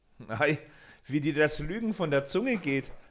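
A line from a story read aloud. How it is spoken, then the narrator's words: Laughing. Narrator (German): lachte Peter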